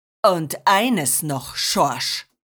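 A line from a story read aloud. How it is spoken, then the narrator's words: Serious voice. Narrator (German): sagte mit ernster Stimme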